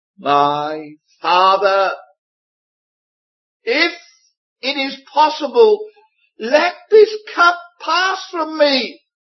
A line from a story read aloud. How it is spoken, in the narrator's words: We find that the Lord Jesus cried out